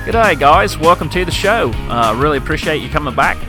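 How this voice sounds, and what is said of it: Put-on Australian accent. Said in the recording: “I'll drop the Australian accent. Was it good? Was it halfway decent? ... doing an Australian impression or accent”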